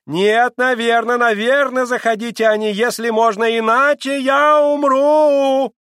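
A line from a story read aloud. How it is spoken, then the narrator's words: Shouting after someone. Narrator (Russian): прокричала вслед ему госпожа Хохлакова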